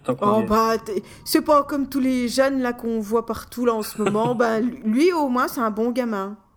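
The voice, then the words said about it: Put-on old grandmotherly accent. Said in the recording (French): “je mets l'accent de la bonne maman ... Avec l'accent c'est encore mieux”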